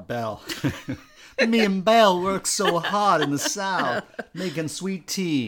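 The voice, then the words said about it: Put-on Southern Belle accent. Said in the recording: “I'm doing a Southern Belle accent.”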